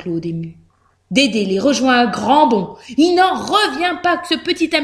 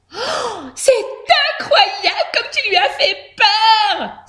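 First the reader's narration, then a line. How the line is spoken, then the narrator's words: Exclaimed. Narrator (French): s'exclame Josette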